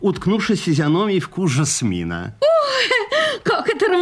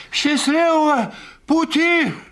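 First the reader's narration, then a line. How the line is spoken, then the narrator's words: Shout. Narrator (Russian): крикнул поэт Кашон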